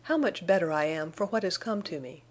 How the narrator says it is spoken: he exclaimed

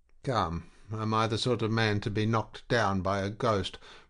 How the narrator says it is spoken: protested Bunter in a little stronger tone

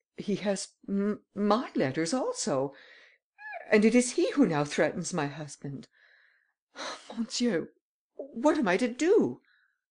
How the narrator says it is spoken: stammered Madame Andermatt, in great alarm

